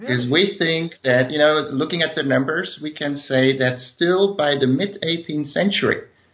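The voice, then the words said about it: Dutch accent in English. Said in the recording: “I do have a Dutch accent when I speak English”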